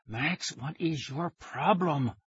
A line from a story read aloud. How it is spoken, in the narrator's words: she asked through gritted teeth